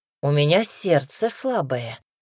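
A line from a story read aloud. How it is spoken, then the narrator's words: Grumbling. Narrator (Russian): проворчал Казимир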